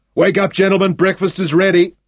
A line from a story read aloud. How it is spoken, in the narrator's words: Shaun shouted in the tahl